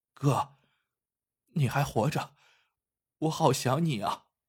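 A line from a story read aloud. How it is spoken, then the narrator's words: Choked with tears. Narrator (Chinese): 金花哽咽着说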